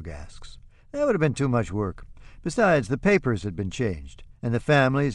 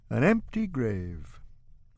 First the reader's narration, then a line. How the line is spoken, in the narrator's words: Oscar yawns